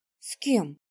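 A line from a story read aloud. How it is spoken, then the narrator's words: Frightened question. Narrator (Russian): испуганно спросила Светка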